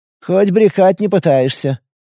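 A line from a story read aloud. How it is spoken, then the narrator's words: Snorting scoff. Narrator (Russian): хмыкнула Нина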